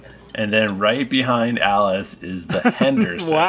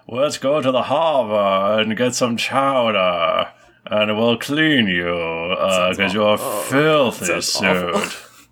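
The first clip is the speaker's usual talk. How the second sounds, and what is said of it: Exaggerated thick upper-crust Boston accent. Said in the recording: “ridiculous Boston accent? ... Like a really upper crust, white, like super thick Boston.”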